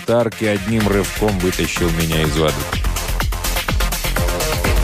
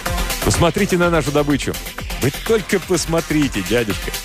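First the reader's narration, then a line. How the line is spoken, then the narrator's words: Breathless laughing. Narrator (Russian): Он смеялся, задыхаясь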